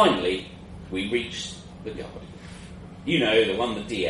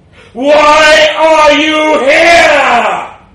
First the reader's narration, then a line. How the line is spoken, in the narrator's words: it bellowed